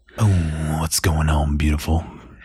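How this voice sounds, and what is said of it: Put-on seductive sexy voice. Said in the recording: “I turned my sexy voice on.”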